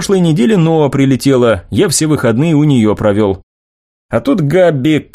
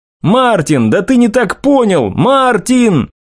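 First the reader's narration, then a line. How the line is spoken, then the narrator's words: Shouting after someone. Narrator (Russian): кричал я уже в спину уходящему парню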